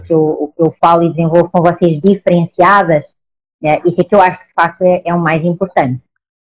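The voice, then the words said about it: Speaks with a pleasant regional accent. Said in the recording (Portuguese): “E eu amo o sotaque ... eu acho lindo ... é o seu sotaque”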